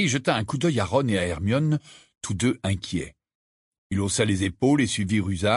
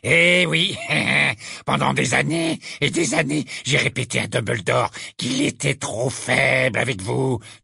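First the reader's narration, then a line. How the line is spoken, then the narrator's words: Fierce sneering. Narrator (French): dit Ruzard avec un ricanement féroce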